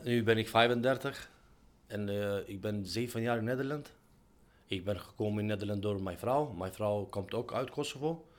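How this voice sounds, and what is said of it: Non-native accent speaking Dutch. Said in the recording (Dutch): “Aan je accent is te horen dat je volgens mij nog niet heel erg lang in Nederland woont.”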